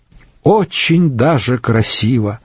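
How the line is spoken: Sighing. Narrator (Russian): вздохнула Дорота Фабер

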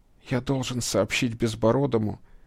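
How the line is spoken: Fast, pained whisper. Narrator (Russian): зашептал он быстро, будто эта скороговорка могла успокоить боль

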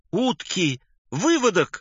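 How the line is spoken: Sudden cry. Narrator (Russian): вскрикнул Александр Александрович

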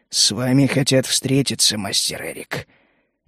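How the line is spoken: Whispering. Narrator (Russian): он прошептал

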